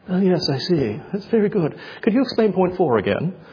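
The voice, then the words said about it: Put-on English accent. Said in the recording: “whenever I do Romans, it's an English accent.”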